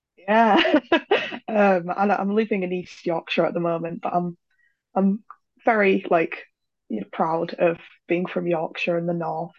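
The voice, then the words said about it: West Yorkshire English accent. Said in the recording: “they're bound to ask about your accent ... I'm from West Yorkshire ... She's a Yorkshire lass ... I like my accent”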